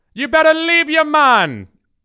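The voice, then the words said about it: Bad fake Jamaican accent. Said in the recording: “that's as good of a Jamaican accent as Miss Cleo. ... real bad.”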